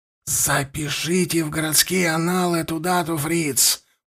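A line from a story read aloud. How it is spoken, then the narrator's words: Whisper, burgomaster. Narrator (Russian): прошептал бургомистр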